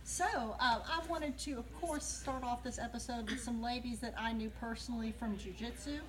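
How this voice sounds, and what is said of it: Deep Southern US accent. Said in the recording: “If you catch the accent, that's where we're from, deep south.”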